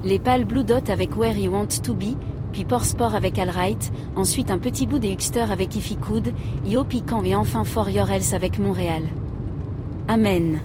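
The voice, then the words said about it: Heavily accented English band names. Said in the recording (French): “c'est quoi cet accent de merde là ?”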